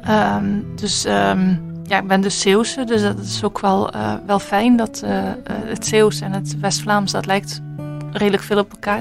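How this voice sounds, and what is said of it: Slight Netherlands Dutch accent. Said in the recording (Dutch): “ik hoor een licht eh, Nederlands accent.”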